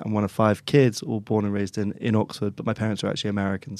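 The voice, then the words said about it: English accent. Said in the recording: “I speak with an English accent.”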